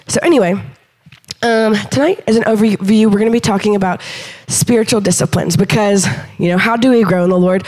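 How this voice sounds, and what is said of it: Hoarse, strained, fading voice. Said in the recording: “excuse my voice ... I am losing it ... I do not have a voice anymore”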